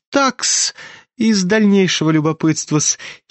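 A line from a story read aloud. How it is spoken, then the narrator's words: Sudden giggle. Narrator (Russian): хихикнул вдруг Лебедев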